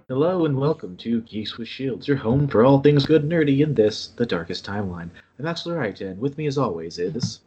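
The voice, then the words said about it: NPR-style public radio announcer voice. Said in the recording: “your NPR voice strikes again ... It's like, oh, okay, NPR.”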